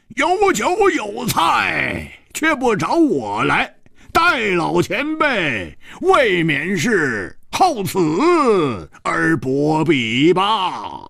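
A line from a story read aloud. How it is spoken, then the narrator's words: Laughing. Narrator (Chinese): 外面 一个人笑着说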